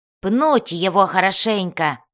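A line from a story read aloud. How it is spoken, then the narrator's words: Growling. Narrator (Russian): зарычал Бреннар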